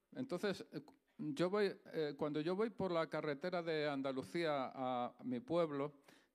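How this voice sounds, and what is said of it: Andalusian Spanish accent. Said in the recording (Spanish): “soy andaluz, ¿vale? Se me nota en el acento”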